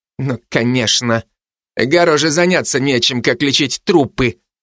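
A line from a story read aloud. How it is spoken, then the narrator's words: Through gritted teeth. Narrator (Russian): процедил тот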